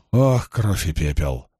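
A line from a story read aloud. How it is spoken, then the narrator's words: Muttered. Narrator (Russian): пробормотала Илэйн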